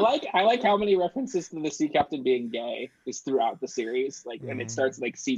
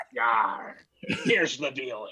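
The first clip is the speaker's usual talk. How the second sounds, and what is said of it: Put-on pirate accent. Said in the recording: “get a pirate accent.”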